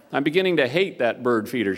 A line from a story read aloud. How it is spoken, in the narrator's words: she said